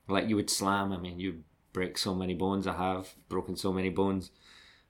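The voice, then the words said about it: Scottish accent. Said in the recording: “a Scottish accent ... a little Scottish crazy maniac”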